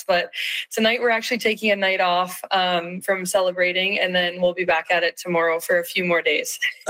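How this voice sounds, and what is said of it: Slightly hoarse, strained voice. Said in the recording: “I lost my voice a little bit in the process”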